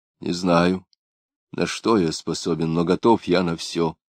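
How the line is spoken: Plain. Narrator (Russian): ответил я

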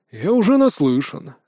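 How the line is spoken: Sighed. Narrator (Russian): вздохнул

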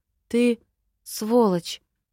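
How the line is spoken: Strained, barely forced out. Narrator (Russian): еле выдавила из себя эти слова

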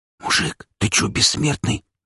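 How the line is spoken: Whisper. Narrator (Russian): зашептал

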